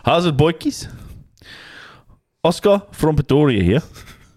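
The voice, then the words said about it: Put-on Afrikaans South African accent. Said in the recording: “you read this out in in a South African accent, in Afrikaans accent”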